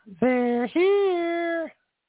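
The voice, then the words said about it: Falsetto voice. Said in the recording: “That's all the falsetto you're getting from me this morning.”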